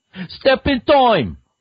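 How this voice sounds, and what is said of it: Exaggerated bad Cockney accent. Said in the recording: “In the voice he did for Mary Poppins, in that rubbish Cockney accent.”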